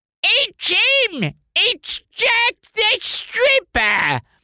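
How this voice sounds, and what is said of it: Una O'Connor-style Cockney impression. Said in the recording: “You had to do a Cockney. ... I was basically doing an Una O'Connor. ... It's a little Gene Stapleton. ... It's pretty good.”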